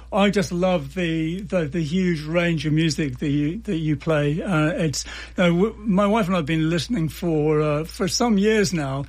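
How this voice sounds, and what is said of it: English accent. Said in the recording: “you got this coolest accent because you're from England”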